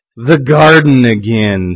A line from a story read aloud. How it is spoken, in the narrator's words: said Eve